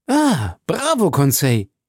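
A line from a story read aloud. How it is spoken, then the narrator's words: Exclaimed. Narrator (German): rief ich aus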